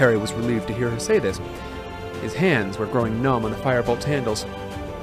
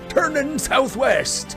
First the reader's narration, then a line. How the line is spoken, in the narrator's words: yelled Moody